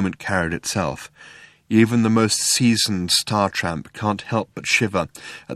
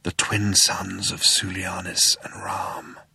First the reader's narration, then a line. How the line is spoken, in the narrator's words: breathed Zaphod